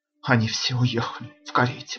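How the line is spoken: Whisper. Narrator (Russian): прошептала она

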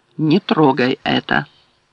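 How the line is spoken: Calm command. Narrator (Russian): девушка спокойно приказала

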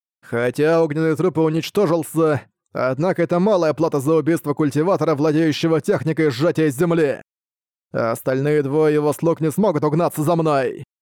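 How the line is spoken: Loud laughter. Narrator (Russian): захохотал Лю Цинъюнь

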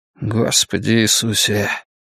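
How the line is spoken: Sad inner thought. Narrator (Russian): печально подумал Ллойд

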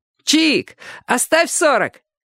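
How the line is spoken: Joking shout. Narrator (Russian): крикнул кто-то в шутку

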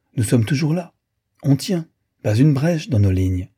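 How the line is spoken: Cheerful. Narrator (French): lui dit-il gaiement

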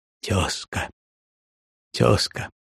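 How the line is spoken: Trembling tearful voice. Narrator (Russian): сказал дрогнувшим голосом, причем глаза его были полны слез

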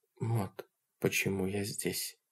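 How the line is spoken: Quiet. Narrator (Russian): тихо сказала она

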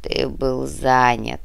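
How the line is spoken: Muffled, hollow reply. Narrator (Russian): глухо ответил повелитель

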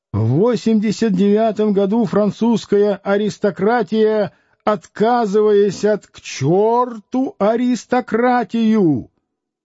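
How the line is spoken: Frenzied yelling. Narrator (Russian): кто-то неистово орал

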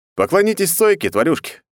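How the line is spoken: Smirking grunt. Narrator (Russian): хмыкнул я

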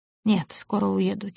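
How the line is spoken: Quiet reply. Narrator (Russian): тихо ответил Лавьер

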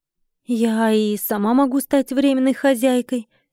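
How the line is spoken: Timid interjection. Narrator (Russian): робко встряла

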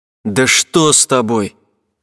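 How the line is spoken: Angry shout. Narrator (Russian): зло крикнул я

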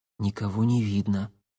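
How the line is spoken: Whispered. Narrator (Russian): прошептал Никита

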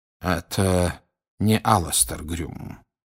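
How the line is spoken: Quiet. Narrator (Russian): тихо сказал Дамблдор

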